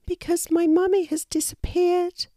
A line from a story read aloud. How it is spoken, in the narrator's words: replied the wallaby sadly